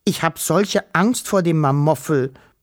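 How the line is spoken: Stammering. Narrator (German): stotterte

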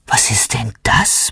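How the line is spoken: Murmur. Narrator (German): murmelt er

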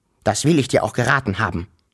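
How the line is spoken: Grumbling father. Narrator (German): brummte der Wawuschel-Vater

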